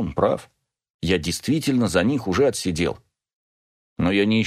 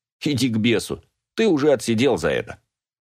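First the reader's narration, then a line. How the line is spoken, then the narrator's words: Mocking. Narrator (Russian): насмешливо говорит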